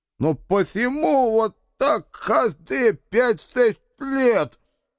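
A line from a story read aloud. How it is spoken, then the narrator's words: Lisping mutter. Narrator (Russian): Шепелявя забормотал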